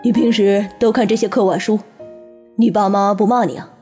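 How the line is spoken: Laughing. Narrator (Chinese): 他笑道

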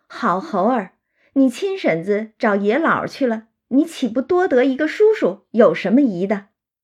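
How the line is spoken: Laughing. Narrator (Chinese): 他就笑道

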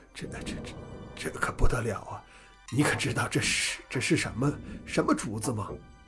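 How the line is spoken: Hoarse, trembling, extremely excited. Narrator (Chinese): 神情激动之极，声音又哑又发颤

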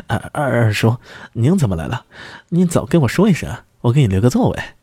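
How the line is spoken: Forced smile, nervous greeting. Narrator (Chinese): 杨冠宇勉强的笑了笑，战战兢兢的打招呼

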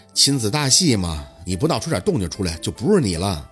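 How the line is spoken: Flat casual reply. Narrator (Chinese): 淡淡的应着

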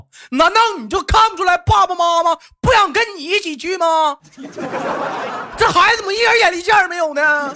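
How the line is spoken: Angry raised shout. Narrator (Chinese): 妈妈一拍桌子，扬声的喊道

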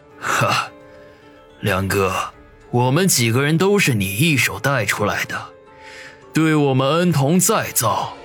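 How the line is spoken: Calm, unhurried, faint smile. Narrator (Chinese): 云师爷淡淡一笑，站起身来，不急不缓的说道

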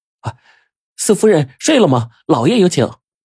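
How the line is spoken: Calling from outside. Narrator (Chinese): 突然房外有人就叫道

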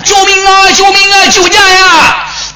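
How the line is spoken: Shouting from behind wall. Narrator (Chinese): 宫墙里边喊

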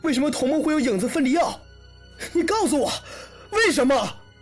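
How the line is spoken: Shouting angrily. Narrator (Chinese): 王想冲着坐在床上的影子直接吼了起来

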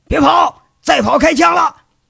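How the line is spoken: Urgent shout amid gunfire. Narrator (Chinese): 鲁智清情急之下一边放一边喊

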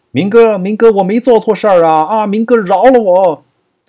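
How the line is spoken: Terrified desperate shouting. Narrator (Chinese): 这一突如其来的变故，把这个小弟吓得屁滚尿流，只好大叫

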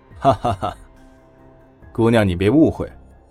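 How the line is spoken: Laughing. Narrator (Chinese): 黑面男人笑了笑

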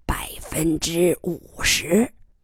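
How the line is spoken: Murmuring. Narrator (Chinese): 楚贵妇喃喃地重复着

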